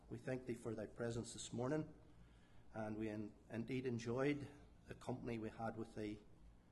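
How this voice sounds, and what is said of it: Non-American accent. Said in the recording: “I'm not from the United States, and that my accent is slightly different, and therefore you may have a little bit of difficulty maybe understanding”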